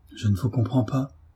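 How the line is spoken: Stammering. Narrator (French): dit Marie en balbutiant

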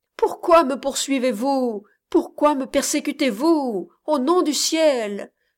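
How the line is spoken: Old man exclaiming. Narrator (French): s'écria le vieillard

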